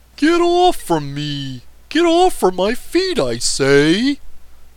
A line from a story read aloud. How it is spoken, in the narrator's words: cried an excited voice